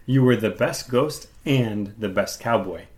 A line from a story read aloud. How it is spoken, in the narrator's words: said Mrs